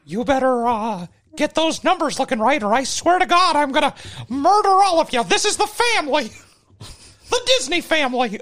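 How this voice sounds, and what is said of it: Mickey Mouse cartoon voice. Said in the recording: “This is a good Mickey Mouse impression.”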